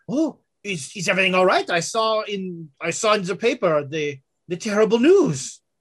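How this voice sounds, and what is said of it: Put-on French accent. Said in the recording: “I was trying to remember if she had a French accent before... Yeah, she did... Yeah, she talked like this before.”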